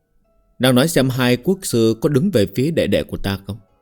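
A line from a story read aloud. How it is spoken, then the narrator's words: Sighing. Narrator (Vietnamese): Tống Tập Tân thở dài nói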